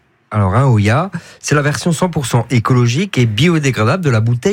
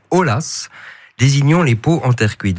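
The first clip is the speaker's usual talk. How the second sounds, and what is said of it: Questionable put-on Spanish accent. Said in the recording (French): “mon accent espagnol qui est tout à fait discutable”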